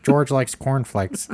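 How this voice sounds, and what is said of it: Bad imitation of another person's voice. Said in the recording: “my very bad George Lucas impression”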